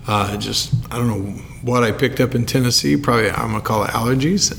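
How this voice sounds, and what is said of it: Hoarse, worn-out voice. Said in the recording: “My voice is a little shot, so please forgive me if you hear some like muffled little coughs here ... I don't have a voice left”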